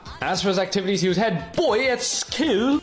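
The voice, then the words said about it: Terrible put-on British accent. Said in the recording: “That was a terrible UK accent.”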